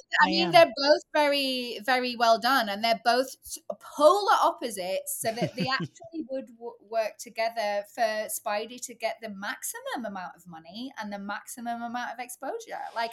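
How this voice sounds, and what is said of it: British accent. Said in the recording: “anytime someone explains anything with a British accent, it feels it's ... from the Bible or Shakespeare”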